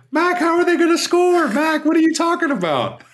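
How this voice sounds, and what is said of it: Impression of the co-host. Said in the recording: “what a great impression of me.”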